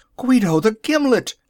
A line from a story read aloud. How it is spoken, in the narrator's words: they cried